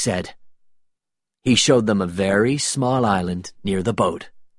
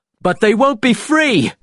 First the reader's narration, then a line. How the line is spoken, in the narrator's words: shouted Will